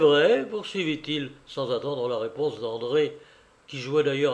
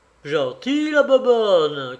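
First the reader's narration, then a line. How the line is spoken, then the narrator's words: Sudden shout. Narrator (French): cria tout à coup Cyprien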